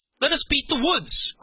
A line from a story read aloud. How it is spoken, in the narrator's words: cried several at once